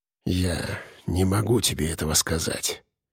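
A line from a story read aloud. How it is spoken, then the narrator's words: Quiet, ogre. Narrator (Russian): тихо произнес людоед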